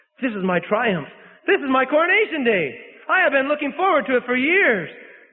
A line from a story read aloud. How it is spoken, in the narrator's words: he exclaimed